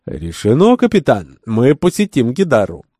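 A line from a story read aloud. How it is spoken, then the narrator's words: Exclaimed. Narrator (Russian): воскликнула Наджеп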